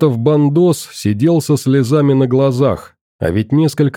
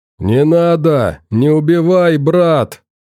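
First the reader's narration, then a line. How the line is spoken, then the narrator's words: Captive yelling. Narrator (Russian): заорал пленник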